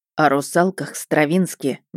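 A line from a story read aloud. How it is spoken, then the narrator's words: Sighing. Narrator (Russian): Мердок вздохнул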